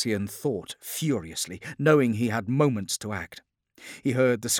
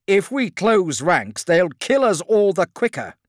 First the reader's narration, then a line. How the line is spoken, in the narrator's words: said Keratreus urgently